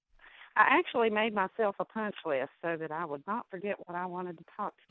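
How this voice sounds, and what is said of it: West Virginia regional accent. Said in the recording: “in West Virginia ... There's the accent I wanted. I love that accent.”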